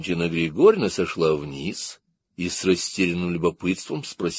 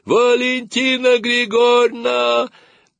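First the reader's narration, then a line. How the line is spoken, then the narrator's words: Shouting in unison. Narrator (Russian): Сережка и Наташка дружно закричали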